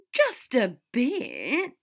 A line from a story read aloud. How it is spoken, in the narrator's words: Draco whined and pouted